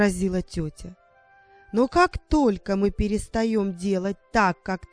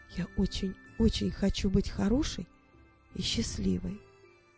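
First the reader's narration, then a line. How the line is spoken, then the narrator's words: Whisper. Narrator (Russian): прошептала она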